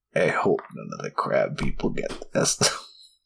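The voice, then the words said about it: Strained, breathless dying voice. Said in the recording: “He's saying this as he's dying from not having enough oxygen. That's why I'm doing this voice.”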